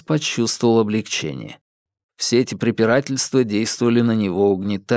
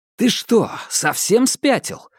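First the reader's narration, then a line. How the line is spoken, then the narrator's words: Exclaiming. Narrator (Russian): воскликнул Ньют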